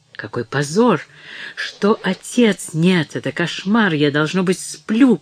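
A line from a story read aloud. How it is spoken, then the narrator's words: Despairing moan. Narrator (Russian): простонала она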